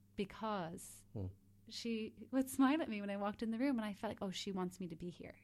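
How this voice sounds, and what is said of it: Accent not from Kinnegad. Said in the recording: “That accent is not a Kinnegad accent”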